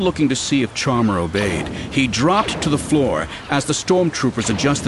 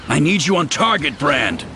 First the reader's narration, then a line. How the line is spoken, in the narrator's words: he growled into his link